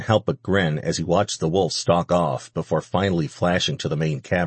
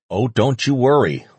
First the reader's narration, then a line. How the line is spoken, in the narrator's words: Lucas growled